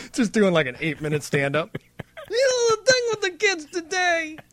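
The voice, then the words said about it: Imitates another person's voice. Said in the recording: “That was my first ever Cosby. The balloon drop. That was my first ever Cosby impression.”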